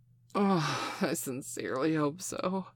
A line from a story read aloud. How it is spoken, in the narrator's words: she laughed